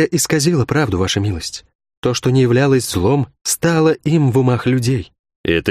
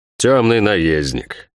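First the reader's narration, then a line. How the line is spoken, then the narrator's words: Snorted. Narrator (Russian): фыркнул герцог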